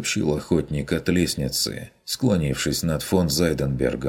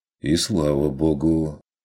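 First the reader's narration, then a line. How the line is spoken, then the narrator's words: Grumbling mutter. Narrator (Russian): Буркнул Курт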